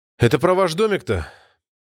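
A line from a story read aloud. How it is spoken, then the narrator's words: Sighing. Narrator (Russian): вздохнул рейдер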